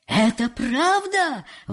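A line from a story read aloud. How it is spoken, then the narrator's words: Exclaiming. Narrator (Russian): воскликнул вождь симпатимпасов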